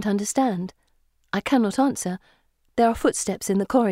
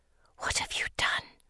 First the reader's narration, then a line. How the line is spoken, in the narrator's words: she whispers